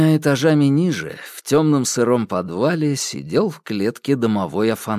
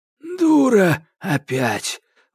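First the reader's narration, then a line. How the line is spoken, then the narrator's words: Exhaled. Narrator (Russian): выдохнул Кощей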